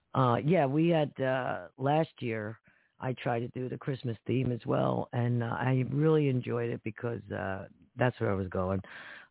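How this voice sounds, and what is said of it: Hoarse, strained voice with throat-clearing. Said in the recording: “I'm losing my voice, folks. So I keep clearing my throat.”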